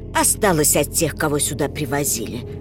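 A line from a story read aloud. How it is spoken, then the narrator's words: Plain, old man. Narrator (Russian): сказал старик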